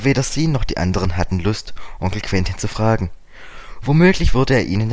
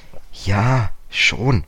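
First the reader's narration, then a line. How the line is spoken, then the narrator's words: Hesitant. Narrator (German): sagte George zögernd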